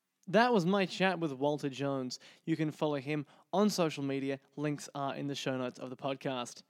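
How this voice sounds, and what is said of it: Australian accent. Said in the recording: “the accent probably helps with that ... from Sydney, so I hear that accent all the time”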